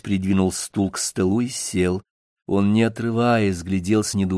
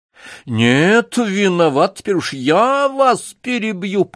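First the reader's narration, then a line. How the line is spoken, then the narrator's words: Nearly shouting. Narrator (Russian): почти закричал прокурор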